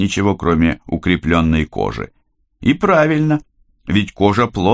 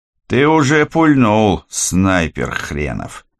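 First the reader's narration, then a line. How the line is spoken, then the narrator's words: Good-natured mutter through teeth. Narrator (Russian): беззлобно процедил Киря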